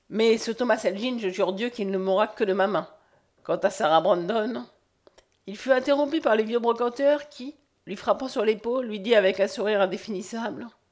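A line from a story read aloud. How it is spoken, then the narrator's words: Cold. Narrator (French): froidement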